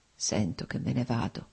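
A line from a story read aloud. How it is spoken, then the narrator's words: Slow, laboured, precise murmur. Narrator (Italian): mormorò Nikolai, articolando lentamente le parole, con fatica ma con straordinaria precisione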